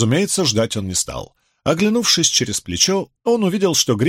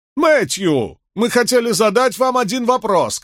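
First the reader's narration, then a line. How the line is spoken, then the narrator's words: Shout. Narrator (Russian): крикнул Григсби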